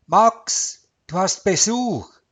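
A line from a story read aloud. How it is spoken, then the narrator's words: Calling into the apartment. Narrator (German): rief Maya in die Wohnung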